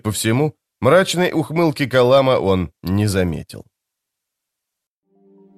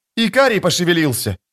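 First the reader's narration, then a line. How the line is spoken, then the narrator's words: Exclaimed. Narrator (Russian): воскликнул Крокус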